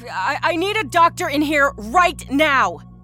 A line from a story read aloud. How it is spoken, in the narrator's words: she bellowed out into the hallway